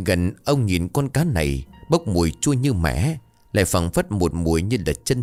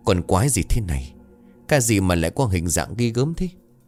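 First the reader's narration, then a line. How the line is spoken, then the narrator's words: Old man muttering. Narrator (Vietnamese): ông Hàm lẩm bẩm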